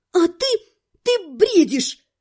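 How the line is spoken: Bold squeak, then frightened shriek. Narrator (Russian): С отчаянной смелостью пискнула я, а потом взвизгнула уже от испуга

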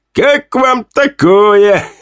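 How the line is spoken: Laughing. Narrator (Russian): рассмеялся я

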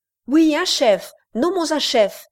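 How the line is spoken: Crowd crying together. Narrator (French): s'écrièrent à la fois grands et petits

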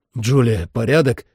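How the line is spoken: Shouting. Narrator (Russian): крикнул я

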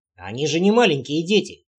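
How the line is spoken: Gruff mutter. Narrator (Russian): буркнул Вельд

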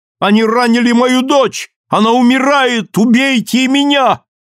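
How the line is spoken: Mother shouting. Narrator (Russian): мать закричала

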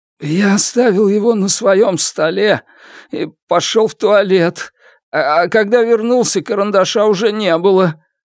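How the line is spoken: Trembling voice. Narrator (Russian): дрожащим голосом ответил Черныш

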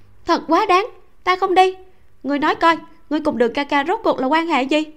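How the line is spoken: Angry, loud. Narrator (Vietnamese): Âu Dương Cẩn nghe thấy Mạc Hy căn bản không trả lời mình, vừa mở miệng liền đuổi mình đi, càng tức giận lớn tiếng nói

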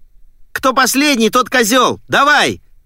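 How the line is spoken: Male yelling. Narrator (Russian): заорал Диппи

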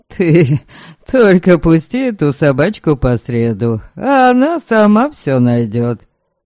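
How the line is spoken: Laughing. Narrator (Russian): засмеялся Хрёрик

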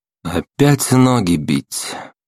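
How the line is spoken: Repeating, sighing. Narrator (Russian): Почти слово в слово повторил я слова бандита, вздохнул

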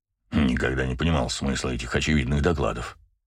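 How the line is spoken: Grumbling. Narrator (Russian): проворчал Браво

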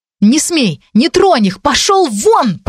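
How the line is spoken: Shout coming out as yelps. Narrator (Russian): прокричала я, но лисий рот выдал жалкое тявканье с повизгиванием

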